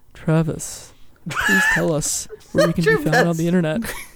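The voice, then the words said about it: Sultry, seductive pillow-talk voice. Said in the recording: “in my best Pillow Talk voice”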